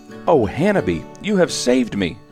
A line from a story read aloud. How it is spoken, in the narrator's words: cried Kankle between tears